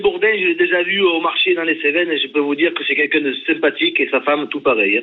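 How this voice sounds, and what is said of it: Southern French regional accent. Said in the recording (French): “mon accent, c'est, il fait partie de ma vie ... je préférerais perdre ma vie que de perdre mon accent ... cet accent”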